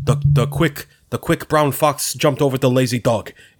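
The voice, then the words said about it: Poor impression of an actor's voice. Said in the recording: “That was the worst impression I've ever done in my life. ... It sounded like Bernie Sanders.”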